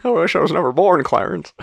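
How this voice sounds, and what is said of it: Bad Jimmy Stewart impression. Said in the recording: “That was a bad Jimmy Stewart impression.”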